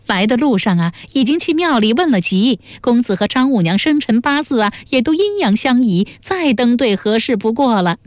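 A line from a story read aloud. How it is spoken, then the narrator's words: Smiling. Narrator (Chinese): 薛嫂又笑着说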